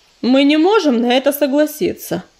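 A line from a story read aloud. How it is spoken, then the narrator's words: Calm. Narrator (Russian): спокойно сказал Огнезвезд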